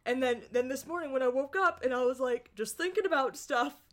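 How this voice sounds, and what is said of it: Choked-up, emotional voice. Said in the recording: “my voice sounds a little more verklempt ... I'm a little choked up. More than usual”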